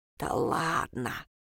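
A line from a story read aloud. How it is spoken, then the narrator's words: Grumbling small voice. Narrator (Russian): проворчал чей-то недовольный голосок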